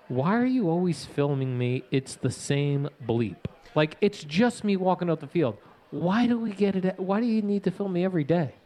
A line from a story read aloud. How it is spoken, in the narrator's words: said very calmly